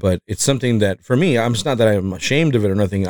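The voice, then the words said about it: Mexican-accented English. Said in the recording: “I can hear my accent, you know, I can hear that I'm not American ... English isn't my first language ... I sound more Mexican”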